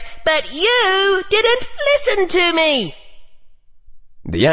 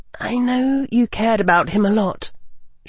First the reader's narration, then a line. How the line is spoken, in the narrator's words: she said softly